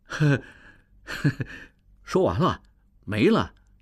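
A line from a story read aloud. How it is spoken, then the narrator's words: Laughing. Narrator (Chinese): 王宗宇笑了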